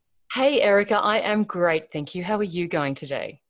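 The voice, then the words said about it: Australian accent. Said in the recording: “judging from her accent ... is that New Zealand or? ... It's an Australian.”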